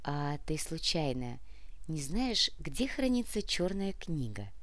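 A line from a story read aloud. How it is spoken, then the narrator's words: Slow question. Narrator (Russian): медленно спросила Яна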